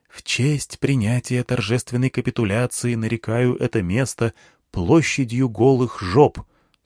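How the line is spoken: Whisper in ear. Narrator (Russian): сказал мне шепотом на ухо стоящий рядом Дмитрий

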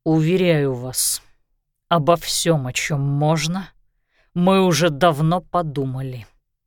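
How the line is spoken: Answered through gritted teeth. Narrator (Russian): сквозь зубы ответил Лещинский

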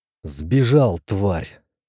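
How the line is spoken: Cursing through gritted teeth. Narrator (Russian): сквозь зубы выругался

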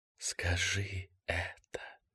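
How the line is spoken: Whispered. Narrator (Russian): прошептала

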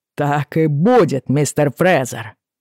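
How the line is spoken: Angry declaration. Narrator (Russian): заявил Браун, злобно прищурив глаза

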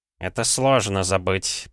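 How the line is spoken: Mumbling. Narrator (Russian): пробормотал Савинов

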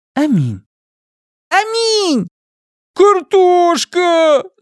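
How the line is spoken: Screaming. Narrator (Russian): завопила Тиа

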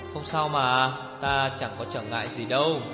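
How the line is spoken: Gentle smiling voice. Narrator (Vietnamese): Vị thiếu phụ mỉm cười dịu dàng

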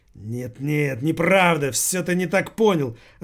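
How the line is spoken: Irritated, ogre. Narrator (Russian): раздраженно проговорил Жора-людоед

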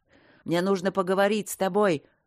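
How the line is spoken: Growling bark. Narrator (Russian): рычаще рявкнул он

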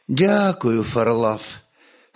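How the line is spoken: Tired smiling voice. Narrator (Russian): устало улыбнулась княгиня

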